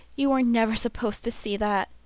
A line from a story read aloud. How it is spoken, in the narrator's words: he said brokenly